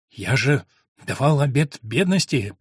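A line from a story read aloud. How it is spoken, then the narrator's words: Quiet, to himself. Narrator (Russian): промолвил он негромко, обращаясь к самому себе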